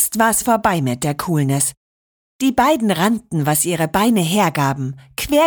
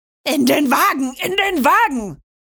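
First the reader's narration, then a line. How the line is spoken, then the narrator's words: Shriek. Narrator (German): kreischte Rocco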